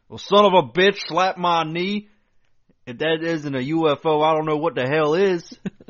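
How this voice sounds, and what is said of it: Put-on rough country accent. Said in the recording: “his accent... One of those old country boys, roughneck country boys”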